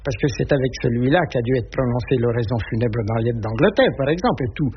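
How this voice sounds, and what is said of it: Strong Burgundian French accent. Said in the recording (French): “un bourguignon avec un accent terrible”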